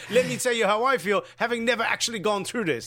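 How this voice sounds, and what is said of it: Slips into a Scottish accent. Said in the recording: “I don't know where my accent went. I think I went Scottish there for a second.”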